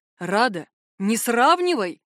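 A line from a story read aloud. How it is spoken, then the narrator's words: Indignant exclamation. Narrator (Russian): возмущенно воскликнул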